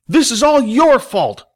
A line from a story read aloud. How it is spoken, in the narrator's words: one screamed